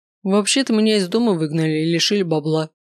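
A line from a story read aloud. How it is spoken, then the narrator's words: Snorting. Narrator (Russian): хмыкнул тот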